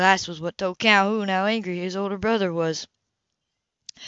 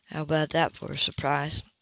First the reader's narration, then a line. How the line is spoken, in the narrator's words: Tyler murmured overhead